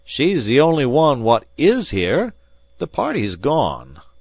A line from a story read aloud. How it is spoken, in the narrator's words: continued the butler, his voice rising unnecessarily